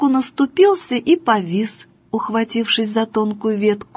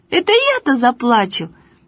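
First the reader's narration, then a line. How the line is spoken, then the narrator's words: Laughing. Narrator (Russian): Алеша засмеялся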